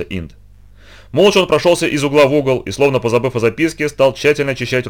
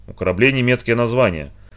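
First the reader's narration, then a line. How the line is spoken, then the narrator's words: Muttering to himself. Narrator (Russian): бормотал Инд, рассуждая вслух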